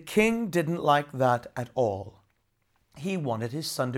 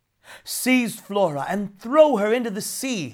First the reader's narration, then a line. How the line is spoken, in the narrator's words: he cried